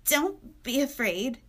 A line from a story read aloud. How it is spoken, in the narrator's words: he said shakily